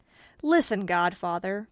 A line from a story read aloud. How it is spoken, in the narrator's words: cried the young man